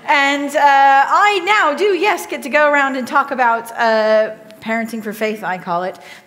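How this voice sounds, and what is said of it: Southern Californian American accent. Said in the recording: “The accent that you're hearing is Southern California”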